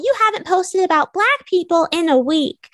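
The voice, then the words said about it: Childlike puppet character voice. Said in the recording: “I read every message in an Elmo voice ... Elmo is like a four-year-old, like supposed to be a four-year-old puppet ... I'll do my little Elmo voice.”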